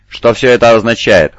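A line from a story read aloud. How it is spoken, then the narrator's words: Cold question. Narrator (Russian): холодно спросил лорд Сайфер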